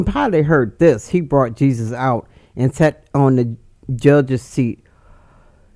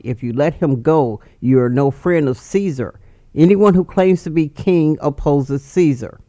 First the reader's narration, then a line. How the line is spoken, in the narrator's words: the Jewish leaders kept shouting